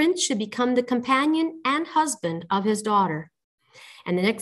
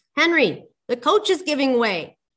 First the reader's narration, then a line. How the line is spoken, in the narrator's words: He cried in alarm